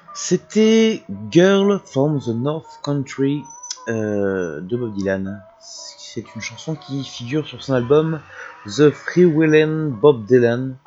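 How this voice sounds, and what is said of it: Clumsy put-on English accent. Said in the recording (French): “Je sais pas pourquoi j'ai pris cet accent. Je ne sais pas faire l'accent anglais”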